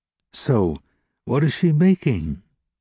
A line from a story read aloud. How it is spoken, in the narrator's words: asked the stranger in that sweet voice that contrasted so strangely with his beggar's clothes and his porter's shoulders